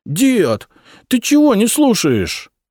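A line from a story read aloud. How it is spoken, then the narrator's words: Hurt, offended. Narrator (Russian): обиженно сказал Александр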